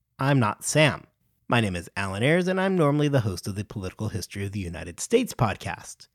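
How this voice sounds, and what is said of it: American accent. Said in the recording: “likely from my distinguished sounding American accent,”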